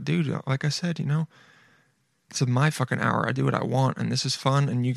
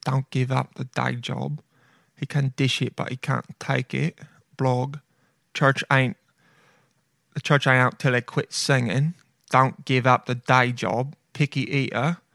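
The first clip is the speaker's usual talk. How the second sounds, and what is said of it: Put-on accent. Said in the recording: “I don't know why I'm saying all of these with that accent.”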